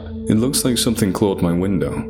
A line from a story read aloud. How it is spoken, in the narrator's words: I said flatly